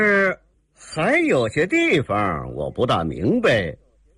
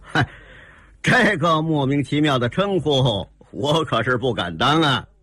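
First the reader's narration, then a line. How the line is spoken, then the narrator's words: Sneering. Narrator (Chinese): 大师兄，吴大爷冷笑着说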